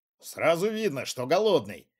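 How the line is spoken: Smirking man. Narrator (Russian): хмыкнул управленец

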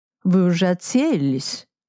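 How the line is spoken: Uncertain question. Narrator (Russian): Мышецкий спросил неуверенно

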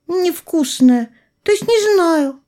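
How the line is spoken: Small child's squeak. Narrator (Russian): пискнул малыш

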